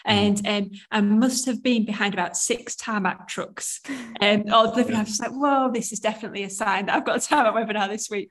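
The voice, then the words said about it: Yorkshire English accent. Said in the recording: “So I live in Yorkshire. Can you tell by my accent?”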